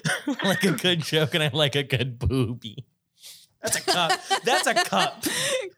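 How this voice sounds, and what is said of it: Cartoon character voice. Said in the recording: “you sound like a little Futurama character”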